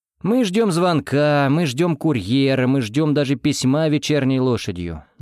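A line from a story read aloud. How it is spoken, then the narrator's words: Plain. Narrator (Russian): ответил ему я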